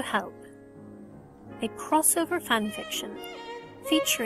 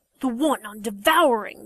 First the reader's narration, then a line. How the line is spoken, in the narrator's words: the wolf grumbled